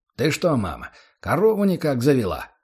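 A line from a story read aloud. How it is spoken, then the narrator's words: Plain. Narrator (Russian): спросил отец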